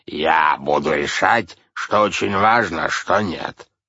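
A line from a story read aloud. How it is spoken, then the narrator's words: Barked command. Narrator (Russian): гаркнул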